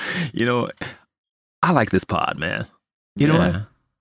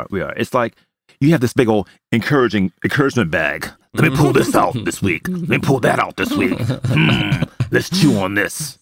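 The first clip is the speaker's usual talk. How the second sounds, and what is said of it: Imitates another person's voice. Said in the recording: “That's a good impersonation of me.”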